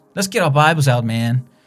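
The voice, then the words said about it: Put-on American accent. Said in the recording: “I have no idea why I did an American accent.”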